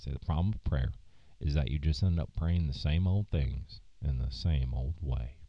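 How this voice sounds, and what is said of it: Imitated Southern accent. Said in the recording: “he had a Southern accent, so I'm going to try to capture it”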